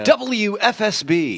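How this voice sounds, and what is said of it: Radio announcer voice. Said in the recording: “That was my radio voice”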